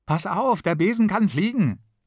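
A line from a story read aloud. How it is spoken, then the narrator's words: Calling out. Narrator (German): ruft der Kasper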